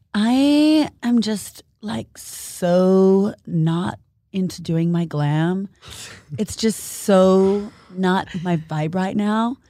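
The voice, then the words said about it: Impression of Courtney Kardashian. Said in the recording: “can actually do a great Courtney impersonation.”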